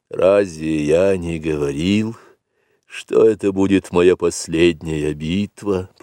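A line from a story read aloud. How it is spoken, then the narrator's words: Whispering. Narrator (Russian): прошептал Акела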